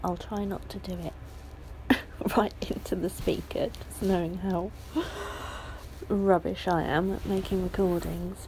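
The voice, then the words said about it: Croaky, sore-throated voice. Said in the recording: “I'm a bit croaky and I've got a bit of a sore throat”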